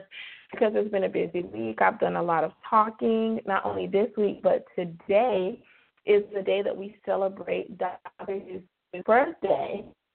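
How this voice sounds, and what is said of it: Slightly hoarse voice. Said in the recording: “My voice is a little hoarse. Kind of, oh, I feel like it's a little hoarse”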